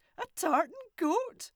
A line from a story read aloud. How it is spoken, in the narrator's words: Both of them laughed loudly